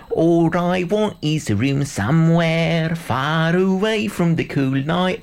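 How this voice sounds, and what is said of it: Put-on Cockney accent. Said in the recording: “What about a bit of Cockney? ... A bit of Cockney.”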